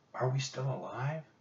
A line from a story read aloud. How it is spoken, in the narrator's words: she whispered